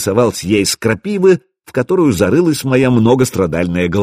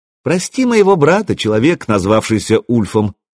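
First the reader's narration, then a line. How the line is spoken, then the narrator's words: Sing-song with giggle. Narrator (Russian): пропела Заря и хихикнула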